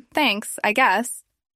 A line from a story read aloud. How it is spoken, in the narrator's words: Tammy said nervously